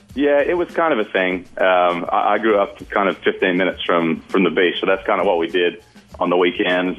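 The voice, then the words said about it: Australian accent. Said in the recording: “he is from Australia. That explains the accent a bit.”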